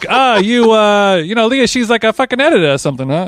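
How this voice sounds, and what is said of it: Put-on Chicago accent. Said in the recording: “That's a classic Chicago accent.”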